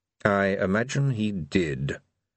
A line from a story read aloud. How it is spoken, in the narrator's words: said, observing the wizard coldly